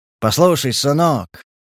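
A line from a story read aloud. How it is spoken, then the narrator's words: Soft, fatherly, confiding. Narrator (Russian): неожиданно смягчился Буров и заговорил доверительным, почти отцовским тоном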